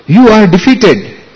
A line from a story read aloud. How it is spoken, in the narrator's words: Kusuma Sava, in wild joy, shouted